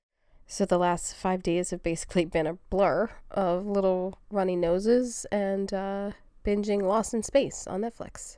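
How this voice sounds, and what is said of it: Sick voice, a little off. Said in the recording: “I'm your sick host ... colds and coughs ... my voice is a little off.”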